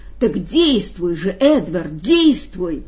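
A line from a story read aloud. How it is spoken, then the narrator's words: Excited exclamation. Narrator (Russian): воскликнул Бейтман в волнении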